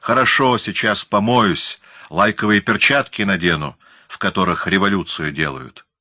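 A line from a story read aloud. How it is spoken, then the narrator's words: Snapping. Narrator (Russian): Лосев огрызнулся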